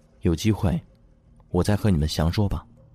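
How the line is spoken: Low voice. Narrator (Chinese): 莫叶低声说着

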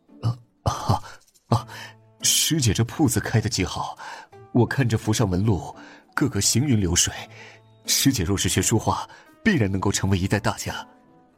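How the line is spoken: Disappointed smile, hasty praise. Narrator (Chinese): 萧玉荣有些失望的笑笑，连忙又夸道

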